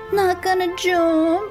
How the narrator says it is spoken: I called out to him with the biggest grin on my face

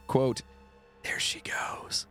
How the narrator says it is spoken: in a whisper type voice

